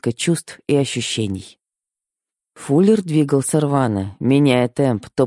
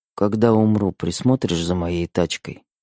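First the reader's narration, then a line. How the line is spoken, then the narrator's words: Sudden muffled mumble. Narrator (Russian): Вдруг пробормотал Фуллер в мою макушку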